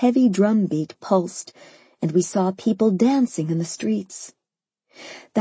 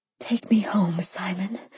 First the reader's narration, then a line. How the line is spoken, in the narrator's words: I whispered